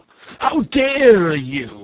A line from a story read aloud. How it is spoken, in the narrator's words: cried